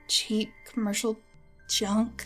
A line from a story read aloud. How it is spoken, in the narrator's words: she muttered